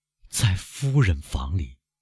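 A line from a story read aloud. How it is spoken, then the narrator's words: Murmuring. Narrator (Chinese): 他喃喃地说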